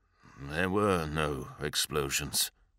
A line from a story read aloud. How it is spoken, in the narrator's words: said Sendek grimly